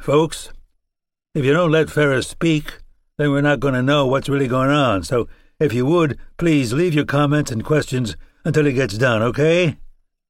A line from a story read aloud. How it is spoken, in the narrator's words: the poor, besieged man who reclaimed his voice